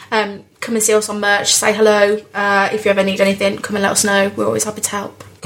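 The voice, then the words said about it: Birmingham English accent. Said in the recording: “you can tell that I'm from there by this accent ... particularly in Birmingham”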